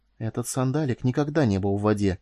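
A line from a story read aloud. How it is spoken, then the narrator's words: Quiet. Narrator (Russian): тихо произнесла она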